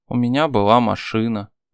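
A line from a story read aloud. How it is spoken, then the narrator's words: Sighing. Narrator (Russian): вздохнула она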